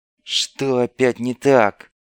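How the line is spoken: Through gritted teeth. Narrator (Russian): процедил сквозь зубы Куделя

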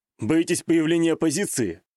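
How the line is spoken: Snorting scoff. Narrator (Russian): хмыкнул я

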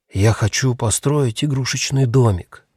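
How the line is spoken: Whispered. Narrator (Russian): прошептал Хемуль

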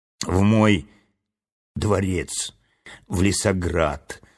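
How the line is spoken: Weak voice. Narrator (Russian): слабым голосом ответил царственный лис

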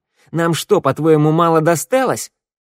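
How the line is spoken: Squeak. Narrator (Russian): Валет пискнул

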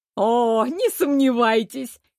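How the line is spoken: Seamstress giggling. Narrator (Russian): хихикнула портниха

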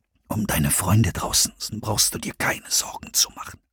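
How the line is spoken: Murmuring voices. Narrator (German): raunten die Stimmen weiter

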